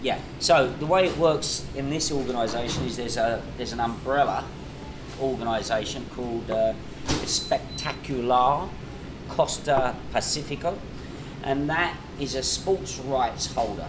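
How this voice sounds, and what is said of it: British accent. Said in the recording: “is it my accent ... a British man is talking”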